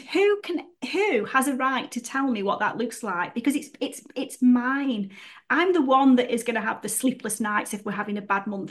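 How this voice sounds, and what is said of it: Stoke-on-Trent English accent. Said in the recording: “I've got a Stokey accent, which, you know, hey, I say book instead of book”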